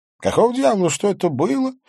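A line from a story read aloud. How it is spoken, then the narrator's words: Groan. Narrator (Russian): простонал я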